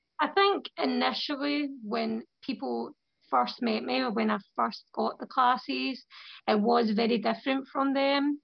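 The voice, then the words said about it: Scottish accent. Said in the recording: “It was very different accent for them because there's not many Scottish people in London.”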